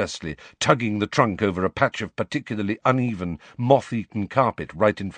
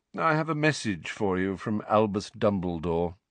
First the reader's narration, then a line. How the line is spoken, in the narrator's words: Phineas Nigellus said lazily